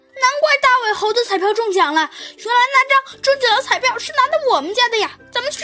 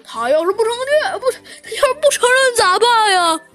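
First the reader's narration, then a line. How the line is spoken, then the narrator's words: Anxious, near tears. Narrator (Chinese): 黄猴急得都要哭出来了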